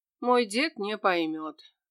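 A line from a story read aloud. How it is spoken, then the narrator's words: Sighing. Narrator (Russian): вздохнул Мирослав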